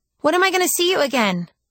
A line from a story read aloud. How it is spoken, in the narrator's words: she asked frantically